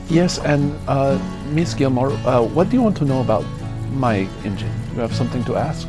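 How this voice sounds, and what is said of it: Put-on Indian accent. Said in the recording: “he's actually a guy of Indian descent”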